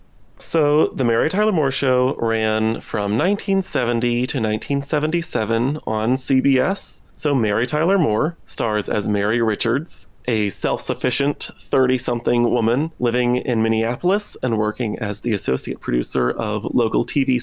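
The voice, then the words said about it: Speaking with vocal fry. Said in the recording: “hearing my vocal fry”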